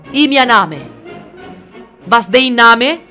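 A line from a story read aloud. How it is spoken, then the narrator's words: Thundering voice. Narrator (Italian): tuonò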